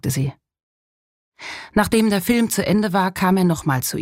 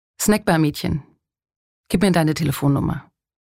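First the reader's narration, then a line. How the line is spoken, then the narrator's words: Plain. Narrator (German): sagte er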